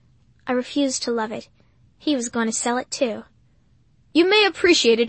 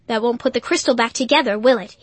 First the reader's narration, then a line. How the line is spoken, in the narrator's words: He snapped